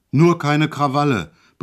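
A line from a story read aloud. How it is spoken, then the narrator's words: Sudden roar. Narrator (German): brüllte er auf einmal los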